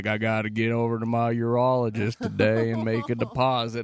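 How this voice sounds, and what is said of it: Put-on southern drawl. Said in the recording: “He's got like a southern accent, too. ... that's southern drawl.”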